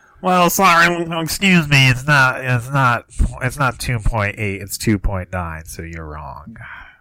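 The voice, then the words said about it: Impression of a co-host. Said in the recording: “A pretty good Keaton impression from both of us? ... Sounds just like me, yeah.”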